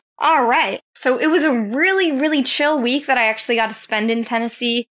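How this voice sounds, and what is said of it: Southern Tennessee country accent. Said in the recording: “I also got this accent that I'm just trying to shake it off... the country lands of Tennessee”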